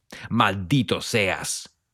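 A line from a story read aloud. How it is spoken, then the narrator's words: Man roaring. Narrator (Spanish): bramó otro hombre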